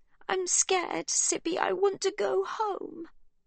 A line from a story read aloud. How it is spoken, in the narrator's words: Livy cries